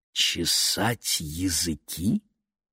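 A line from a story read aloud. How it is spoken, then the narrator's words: Father speaking quietly. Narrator (Russian): тихо произнес папа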